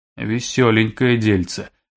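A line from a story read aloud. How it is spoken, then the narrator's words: Gloomy summing up. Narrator (Russian): мрачно подытожил Злыдень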